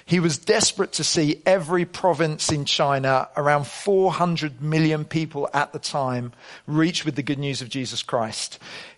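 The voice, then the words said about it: Yorkshire English accent. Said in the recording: “a man from Yorkshire ... are you laughing at my accent?”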